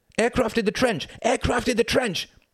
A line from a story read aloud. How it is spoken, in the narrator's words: cried out